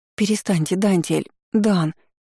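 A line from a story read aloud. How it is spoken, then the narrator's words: Halting rasp. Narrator (Russian): Сбивчиво хрипела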